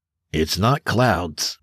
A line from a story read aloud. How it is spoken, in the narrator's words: Granger said